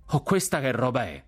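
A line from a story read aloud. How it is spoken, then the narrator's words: Shouted. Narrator (Italian): gridò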